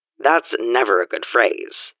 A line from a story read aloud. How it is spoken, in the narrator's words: Heavy mutters